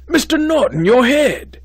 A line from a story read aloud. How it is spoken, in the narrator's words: he cried, a strange grandmotherly concern in his voice